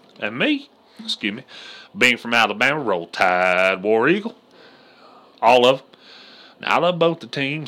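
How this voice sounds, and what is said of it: Southern American accent. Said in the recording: “if you can't tell by my accent ... I'm from the South”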